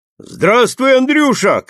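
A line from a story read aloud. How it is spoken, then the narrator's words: Shouting. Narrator (Russian): крикнул боярин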